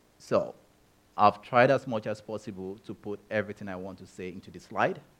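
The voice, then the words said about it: Speaks with a noticeable accent. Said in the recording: “you'll notice I have an accent”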